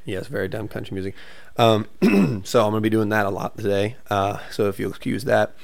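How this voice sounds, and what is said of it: Squeaky, partly lost voice. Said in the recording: “my throat and my voice is a little squeaky and gone still, because Friday night, myself and another buddy, Jared, were just absolutely screaming songs at the top of our lungs”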